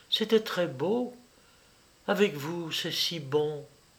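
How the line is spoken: Barely audible voice. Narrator (French): dit Vera d'une voix à peine sensible

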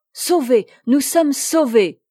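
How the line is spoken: Two crying out together. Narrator (French): s'écrièrent en même temps la châtelaine et le fidèle serviteur

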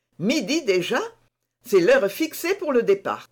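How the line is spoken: Knight exclaiming. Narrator (French): s'écria le chevalier

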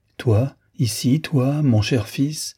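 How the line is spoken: Wounded man crying out. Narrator (French): s'écrie le blessé

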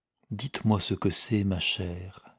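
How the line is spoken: Murmured tenderly. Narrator (French): murmura-t-il tendrement

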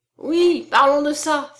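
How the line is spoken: Exclaiming. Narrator (French): s'écria Étienne

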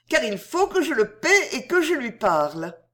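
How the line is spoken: Pleading tone. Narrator (French): demanda Hélène d'un ton suppliant

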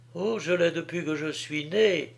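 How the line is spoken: Murmured. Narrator (French): murmura Violette

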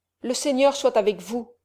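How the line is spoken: Plain. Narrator (French): dit le frère

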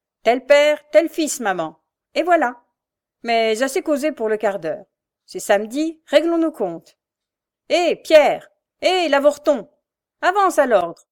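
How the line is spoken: Shouting. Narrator (French): cria-t-il

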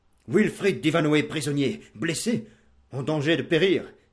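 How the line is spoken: Knight exclaiming. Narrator (French): s'écria le chevalier noir

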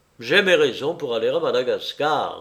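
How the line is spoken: Curt retort. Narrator (French): répliqua sèchement Pickman

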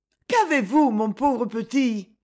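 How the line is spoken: Exclaimed. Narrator (French): s'écria-t-elle

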